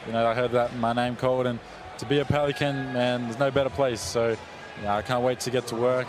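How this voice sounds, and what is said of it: Australian accent. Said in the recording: “She loves that accent ... from Australia”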